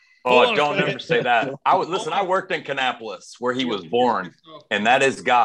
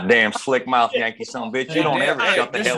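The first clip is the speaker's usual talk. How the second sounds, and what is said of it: Put-on Southern twang. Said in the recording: “The only time I'll do a southern twang”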